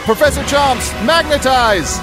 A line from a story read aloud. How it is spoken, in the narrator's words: Fancy, as quick as he can, yells